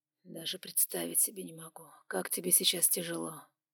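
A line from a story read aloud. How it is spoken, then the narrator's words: Whispered. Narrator (Russian): прошептал Лукас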